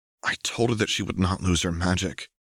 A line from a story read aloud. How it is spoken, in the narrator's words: he whispered